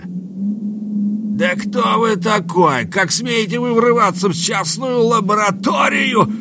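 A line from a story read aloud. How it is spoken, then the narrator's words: Big man yelling. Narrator (Russian): завопил здоровяк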